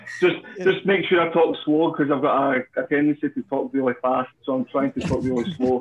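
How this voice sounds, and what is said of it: Attractive accent. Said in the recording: “the sexy accent”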